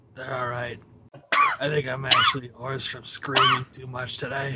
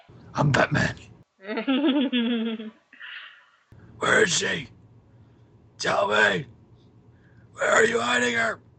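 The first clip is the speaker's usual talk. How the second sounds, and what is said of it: Gravelly Batman voice impression. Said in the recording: “You sound more hoarse than I do. ... You sound kind of Batman-ish.”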